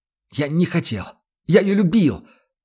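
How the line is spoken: Sobbing cry. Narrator (Russian): То ли выкрикнул, то ли всхлипнул он

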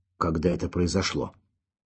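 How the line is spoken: Muffled question. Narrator (Russian): глухо спросил Курочкин

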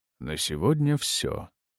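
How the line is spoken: Undertone. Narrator (Russian): сказал я вполголоса

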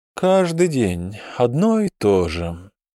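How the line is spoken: Tired. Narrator (Russian): устало произнес Оопсан

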